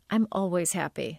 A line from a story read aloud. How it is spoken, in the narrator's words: Sasha said